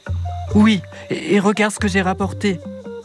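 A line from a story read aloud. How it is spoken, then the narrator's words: Excited exclamation. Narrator (French): s'écrie Isha très excitée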